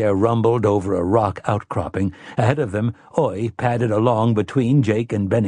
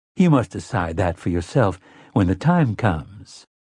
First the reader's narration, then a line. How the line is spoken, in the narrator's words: Susanna said